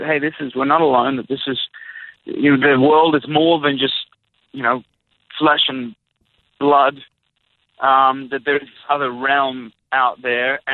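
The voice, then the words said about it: Australian accent. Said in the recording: “people can hear your great and fantastic accent ... growing up ... from Australia”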